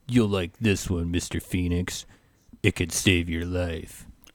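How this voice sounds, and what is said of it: Good imitation of a movie character. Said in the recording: “that was a good impression ... I thought for a moment I was actually talking to one of the Frog Brothers.”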